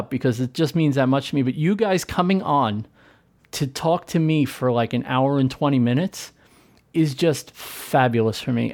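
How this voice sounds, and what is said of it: Choked-up, emotional voice. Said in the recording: “I'm getting a little bit choked up”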